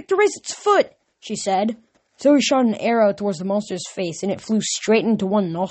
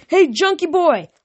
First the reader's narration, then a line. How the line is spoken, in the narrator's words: I yelled